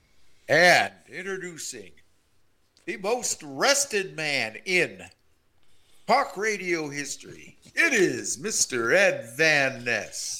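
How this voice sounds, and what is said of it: Wrestling announcer voice. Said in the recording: “the wrestler announcer voice”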